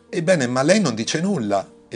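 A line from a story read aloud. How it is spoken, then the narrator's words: Weaver exclaiming. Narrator (Italian): esclamò uno dei tessitori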